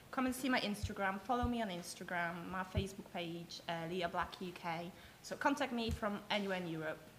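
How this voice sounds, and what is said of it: Thick, glamorous-sounding accent. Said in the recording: “your accent is so thick ... it's a very glamorous accent”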